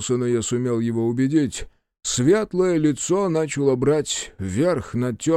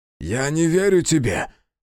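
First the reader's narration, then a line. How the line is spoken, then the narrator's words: Barked shout. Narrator (Russian): гаркнула Аяшики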